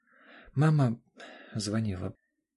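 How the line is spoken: Stammering. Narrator (Russian): запинаясь, произнесла она

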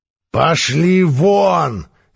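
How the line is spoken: Barking shout. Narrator (Russian): рявкнул на них Всесильный

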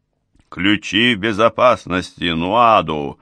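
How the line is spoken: Barked. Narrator (Russian): рявкнул я

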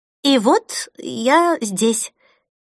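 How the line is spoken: Stammering. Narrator (Russian): запинаясь, закончила она

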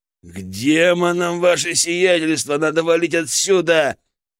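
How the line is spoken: Growling soldier. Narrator (Russian): прорычал один из бойцов

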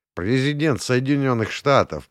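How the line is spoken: Grumbling mutter. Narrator (Russian): пробурчал я

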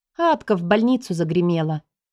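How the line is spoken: Gloomy admission. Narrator (Russian): мрачно призналась

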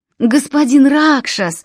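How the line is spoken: Relieved exhale. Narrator (Russian): выдохнули близнецы с явным облегчением

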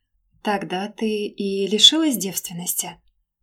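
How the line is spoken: Feigned calm, soft. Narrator (Russian): Нарочито спокойно и деланно мягко уточнил он

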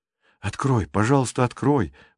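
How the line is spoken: Pleading. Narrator (Russian): взмолились

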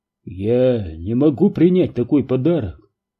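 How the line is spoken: Confused mutter. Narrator (Russian): растерянно пробормотал Перри

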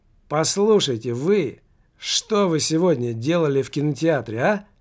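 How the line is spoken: Exclaiming. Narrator (Russian): Воскликнул Немаркетинг

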